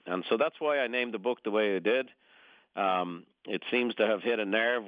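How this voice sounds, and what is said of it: Slight Irish brogue. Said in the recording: “a slight little Irish brogue there. You're from Dublin originally.”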